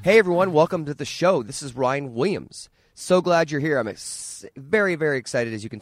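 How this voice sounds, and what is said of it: Raspy, hoarse voice. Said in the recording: “tell from my voice. It's a little raspy and hoarse.”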